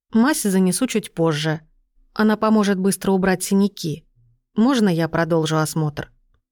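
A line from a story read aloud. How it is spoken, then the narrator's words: Quiet. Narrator (Russian): Сельма тихо ответила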